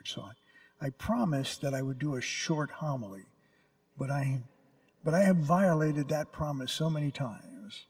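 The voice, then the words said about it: Tired voice. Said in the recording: “I'm tired. Really. ... my voice is even tired”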